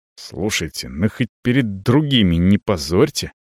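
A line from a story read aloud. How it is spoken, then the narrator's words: Angry whisper. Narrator (Russian): Злобно шепчет Кеша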